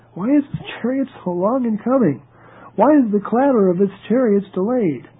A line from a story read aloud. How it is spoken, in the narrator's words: Behind the lattice, she cried out